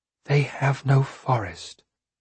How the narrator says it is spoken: I whispered

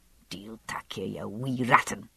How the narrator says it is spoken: she was saying crossly to the little boy

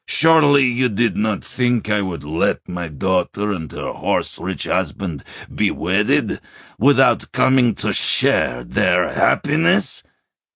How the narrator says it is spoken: bellowed

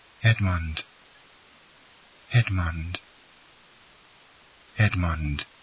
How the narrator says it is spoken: her voice involuntarily murmured softly

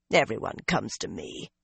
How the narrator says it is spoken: the woman muttered

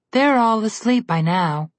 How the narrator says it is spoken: Trollbella said with a sigh

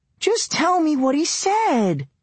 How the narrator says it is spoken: she whined

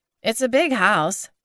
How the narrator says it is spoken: Glenda said

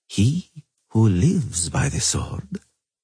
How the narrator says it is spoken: Emiavar Emrys said softly

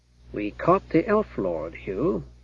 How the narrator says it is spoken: Gareth said in an undertone

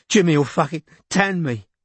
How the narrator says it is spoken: he said in a broken voice

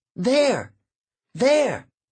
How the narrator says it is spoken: Emma shouted

